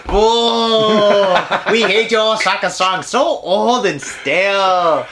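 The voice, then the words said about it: Bad put-on Chinese accent. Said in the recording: “that's like Chinese bad accent”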